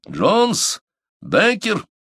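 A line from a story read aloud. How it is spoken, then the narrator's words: Stern shout. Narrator (Russian): строго крикнул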